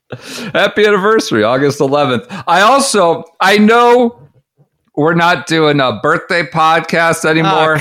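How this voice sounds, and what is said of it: Loud, yelling voice. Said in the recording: “You're yelling. I think your gain's high ... I'm just a little too loud ... you were clipping. I could hear it clipping”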